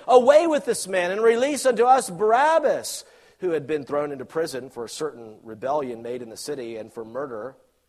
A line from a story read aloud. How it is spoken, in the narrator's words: they all cried out at once, saying